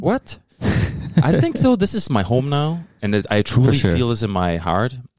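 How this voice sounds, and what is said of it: Noticeable foreign accent. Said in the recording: “I could tell by the accent.”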